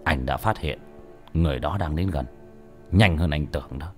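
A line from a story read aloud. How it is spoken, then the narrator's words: Stern. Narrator (Vietnamese): Bác cổ nghiêm giọng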